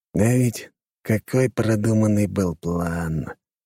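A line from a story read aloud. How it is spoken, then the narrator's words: Heavy sigh. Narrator (Russian): тяжело вздохнул граф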